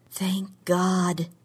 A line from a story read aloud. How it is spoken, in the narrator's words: said under her breath